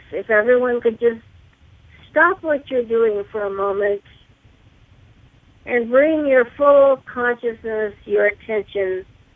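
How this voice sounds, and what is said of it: Raspy, hoarse voice. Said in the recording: “Please excuse my raspy throat. I've been fighting off a sore throat all week long.”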